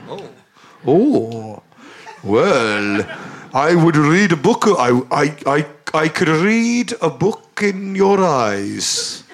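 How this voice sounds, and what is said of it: Put-on Scandinavian accent drifting Welsh. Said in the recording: “Welsh ancestry is really coming through ... can we stick to the Scandinavian accent?”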